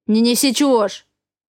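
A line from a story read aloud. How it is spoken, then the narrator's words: Bark. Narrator (Russian): гаркнул Раф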